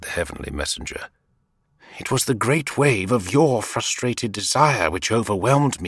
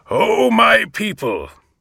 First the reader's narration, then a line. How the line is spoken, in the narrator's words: he shouted